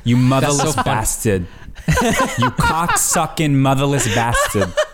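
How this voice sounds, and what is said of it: Thick Brooklyn accent, dropped R's. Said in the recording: “thickest Brooklyn accent ... she like drops all of her R's ... That is a perfect impression of my mother”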